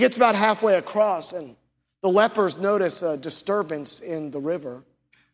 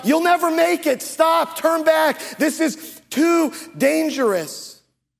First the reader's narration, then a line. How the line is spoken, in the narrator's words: the doctors come out, and they shout